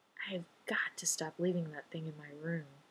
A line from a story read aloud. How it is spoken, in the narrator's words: he murmurs